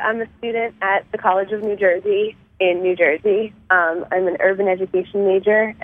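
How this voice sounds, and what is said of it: Slightly nasal, sick-sounding voice. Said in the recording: “apologize for my voice. I'm a little sick, so I do sound a little nasally”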